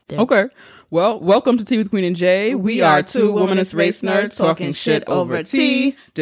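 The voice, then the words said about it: Deeper, lower-pitched voice than usual. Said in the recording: “this is a really deep voice week for me. I have my period. Whenever I have my period, my voice gets deeper and sexier. ... I find my voice a lot more sexier when it's deeper like this.”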